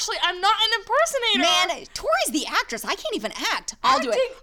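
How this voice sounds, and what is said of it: Usual voice. Nothing is said of it.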